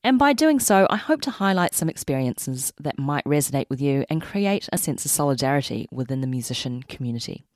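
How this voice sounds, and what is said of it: New Zealand accent. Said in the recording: “born and raised in Auckland, New Zealand, hence the accent ... this is where I learned how to sharpen my vowels and speak with this inflection”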